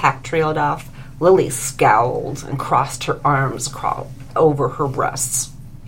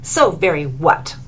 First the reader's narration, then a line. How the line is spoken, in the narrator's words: snapped Lily